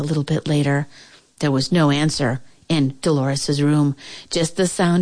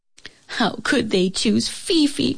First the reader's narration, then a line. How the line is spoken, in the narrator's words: cried Dolores